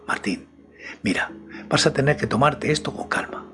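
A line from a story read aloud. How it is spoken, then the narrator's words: Low voice. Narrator (Spanish): Silvia me habló en voz baja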